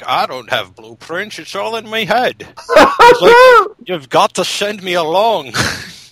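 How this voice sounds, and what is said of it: Imitates another person's voice. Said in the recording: “Sean Connery's like ... that impression ... Connery”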